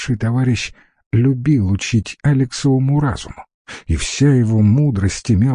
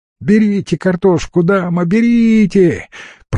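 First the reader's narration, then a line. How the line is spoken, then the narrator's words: Shrill shout. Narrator (Russian): пронзительно закричала Светка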